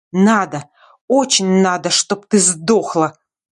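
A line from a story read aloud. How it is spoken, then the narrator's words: Venomous hiss. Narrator (Russian): прошипела эта гадюка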